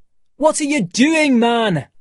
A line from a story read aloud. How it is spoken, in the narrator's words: From the beach, Montgomery shouted